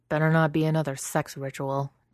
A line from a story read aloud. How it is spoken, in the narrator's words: Dex mutters